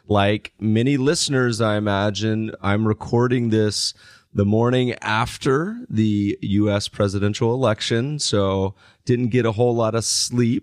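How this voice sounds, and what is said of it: Scratchy, slightly rough voice. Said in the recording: “my voice is a little scratchy today”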